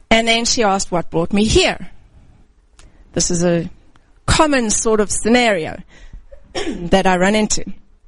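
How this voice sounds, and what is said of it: Distinct African accent. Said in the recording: “usually my accent is pretty distinct ... I was born and raised African”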